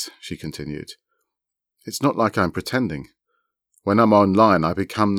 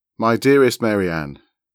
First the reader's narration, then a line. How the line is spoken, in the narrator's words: our founder said